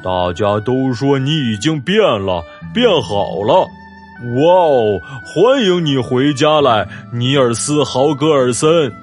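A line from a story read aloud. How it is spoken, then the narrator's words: Roaring. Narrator (Chinese): 五月玫瑰吼叫起来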